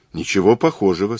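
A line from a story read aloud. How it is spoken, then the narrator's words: Plain. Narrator (Russian): сказал Мазур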